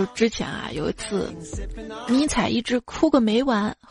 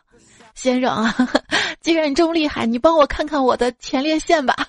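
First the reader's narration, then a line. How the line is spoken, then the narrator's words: Fawning, smiling. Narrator (Chinese): 满脸堆笑着说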